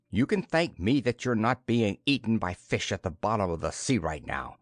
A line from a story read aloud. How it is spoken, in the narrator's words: snapped Karun